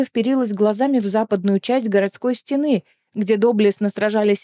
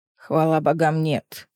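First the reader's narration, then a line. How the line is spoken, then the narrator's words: Grumbled reply. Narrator (Russian): буркнул в ответ Дара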